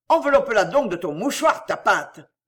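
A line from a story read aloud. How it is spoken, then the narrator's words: Shouting. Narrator (French): cria-t-il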